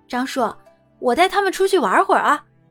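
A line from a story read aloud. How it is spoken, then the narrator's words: Smiling. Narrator (Chinese): 苏玲一笑…对张春生道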